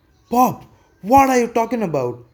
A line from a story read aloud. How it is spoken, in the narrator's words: the son screams